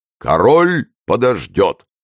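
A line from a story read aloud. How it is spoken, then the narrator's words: Deep bass voice. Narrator (Russian): пробасил Портос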